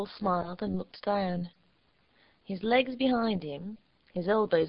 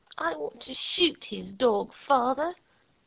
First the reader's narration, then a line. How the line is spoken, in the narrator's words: the girl suddenly remarked in a determined voice